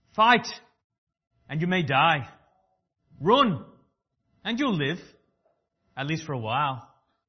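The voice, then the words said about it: Put-on Scottish accent. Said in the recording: “pretend I'm this good-looking Australian that's got a Scottish accent”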